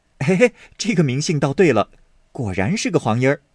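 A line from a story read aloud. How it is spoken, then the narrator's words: Laughing. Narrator (Chinese): 宝玉笑道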